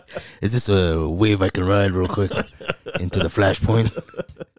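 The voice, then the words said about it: Bad gruff impersonation of another person. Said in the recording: “my bad Jason Momoa impersonation ... they're just gruff”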